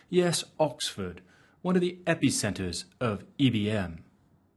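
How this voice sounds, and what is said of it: Weak put-on British accent. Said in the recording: “my lame attempt at a British accent.”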